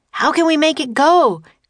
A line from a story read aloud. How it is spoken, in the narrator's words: cried Jack